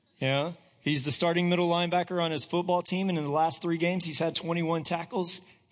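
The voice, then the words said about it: Hoarse voice. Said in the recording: “my voice is a little hoarse this morning ... I'm hoarse because he had a football game yesterday”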